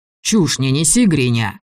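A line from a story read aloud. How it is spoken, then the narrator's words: Angry. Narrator (Russian): сказал Влас зло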